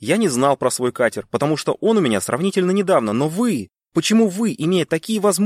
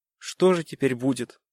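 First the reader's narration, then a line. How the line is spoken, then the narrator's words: Sad question. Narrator (Russian): Грустно спросил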